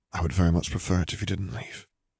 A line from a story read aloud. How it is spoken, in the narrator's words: he murmured